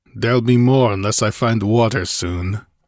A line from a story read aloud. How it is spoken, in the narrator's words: growled the Cimmerian, his short store of patience about exhausted